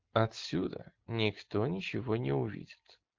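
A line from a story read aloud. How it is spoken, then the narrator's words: Whisper. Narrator (Russian): шепнула она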